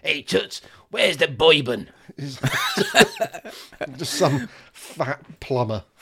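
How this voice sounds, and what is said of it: Shouted put-on New York accent. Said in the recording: “I just heard it in a New York accent when he shouted upstairs”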